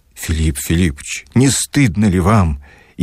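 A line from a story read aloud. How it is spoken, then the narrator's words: Ardent, sincere exclamation. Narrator (Russian): искренне воскликнул пламенный Барменталь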